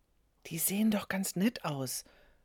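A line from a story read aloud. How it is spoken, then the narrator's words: Whisper. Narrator (German): flüsterte Quito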